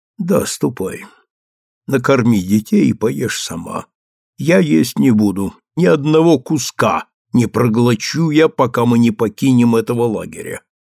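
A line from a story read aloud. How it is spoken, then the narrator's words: Plain. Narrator (Russian): ответил он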